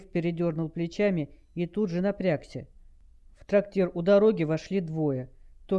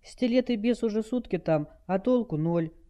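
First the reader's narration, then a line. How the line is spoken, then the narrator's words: Sad remark. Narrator (Russian): грустно заметила Хелл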